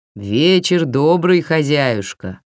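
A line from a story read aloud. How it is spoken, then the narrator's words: Booming voice from above. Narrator (Russian): прогудела сверху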